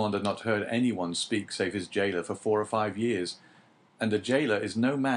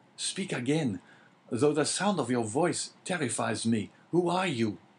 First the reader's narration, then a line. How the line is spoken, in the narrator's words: cried Dante